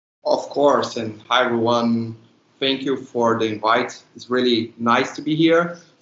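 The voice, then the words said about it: Non-native Latin American accent. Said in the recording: “Before that, I was the creative lead for Latin. So that explains this weird accent that I have.”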